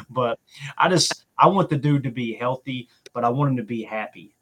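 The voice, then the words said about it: Kentucky accent. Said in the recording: “you hear my accent ... back home in Kentucky”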